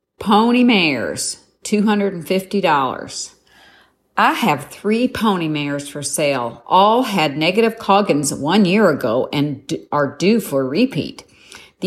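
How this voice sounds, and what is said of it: Put-on Southern US accent. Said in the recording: “I am from Canada, but I'm going to try my southern accent because this is in the Augusta, Georgia area”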